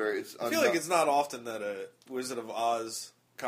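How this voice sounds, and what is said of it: Usual voice. Nothing is said of it.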